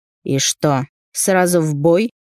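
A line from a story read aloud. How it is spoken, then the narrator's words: Loud defiant snort. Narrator (Russian): Громко фыркнул он, словно бросая вызов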